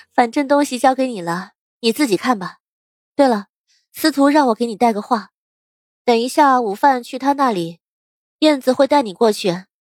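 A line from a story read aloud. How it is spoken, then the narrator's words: Smiling. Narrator (Chinese): 楚月继续笑道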